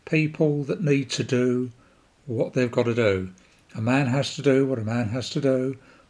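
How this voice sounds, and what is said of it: Croaky, hoarse voice. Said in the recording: “If you hear a croak in my voice saying, that's because I've got a sore throat at the moment”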